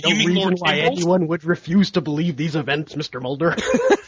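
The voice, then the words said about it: Imitates another person's voice, exaggerated enunciation. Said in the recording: “that was the greatest Jesse Ventura impersonation ever. The enunciation. Amazing.”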